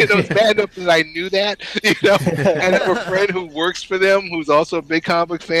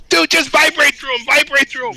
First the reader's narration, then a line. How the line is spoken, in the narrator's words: the ten year old in me was screaming